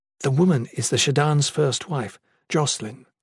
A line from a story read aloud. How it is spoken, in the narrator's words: Mina whispered to Jen